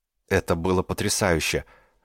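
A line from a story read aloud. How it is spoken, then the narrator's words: Stunned breathless exhale. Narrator (Russian): выдохнул ошеломленный Нала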